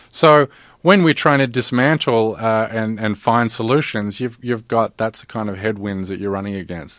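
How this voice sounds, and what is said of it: Foreign-sounding accent. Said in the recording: “You got a weird accent.”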